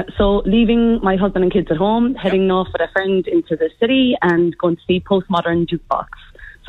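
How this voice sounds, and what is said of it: Irish accent. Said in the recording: “the Irish accent stays with me”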